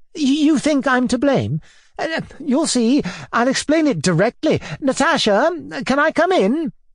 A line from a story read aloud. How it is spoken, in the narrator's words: he cried with a sort of assumed boldness